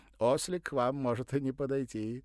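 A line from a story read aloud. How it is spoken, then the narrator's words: Cheerful, teasing. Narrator (Russian): весело сказал француз, явно намекая на длину ног Владимира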